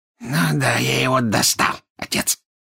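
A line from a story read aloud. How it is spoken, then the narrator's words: Hoarse laughter. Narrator (Russian): хрипло засмеялся Морфин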